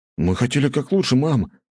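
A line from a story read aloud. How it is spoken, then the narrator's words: Tearful exclamation. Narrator (Russian): воскликнул Фригейл, в глазах которого стояли слезы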